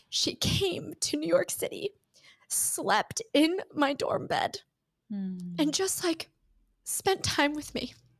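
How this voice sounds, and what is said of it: Teary, emotional voice. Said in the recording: “I'm going to get teary.”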